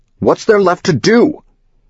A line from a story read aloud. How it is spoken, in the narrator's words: The speakerphone yells